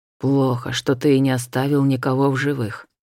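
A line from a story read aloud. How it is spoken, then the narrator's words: Quiet complaint. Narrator (Russian): тихо между тем сетовал Шайтар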